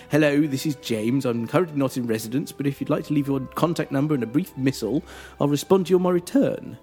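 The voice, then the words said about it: Slightly posher answer-phone voice. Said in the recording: “answer phone voice ... that slightly posher voice we all put on when we record an answer phone message”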